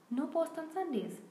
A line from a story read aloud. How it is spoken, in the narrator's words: he reminded them happily